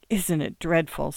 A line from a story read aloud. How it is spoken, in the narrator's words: Stell gasped